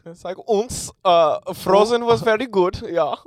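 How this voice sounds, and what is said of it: Put-on Scandinavian Germanic-sounding accent. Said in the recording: “Scandinavian, you know? ... the accent ... it's a fun accent ... it's like Germanic”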